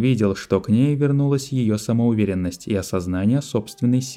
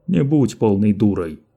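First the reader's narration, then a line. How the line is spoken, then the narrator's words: Barked. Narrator (Russian): рявкнул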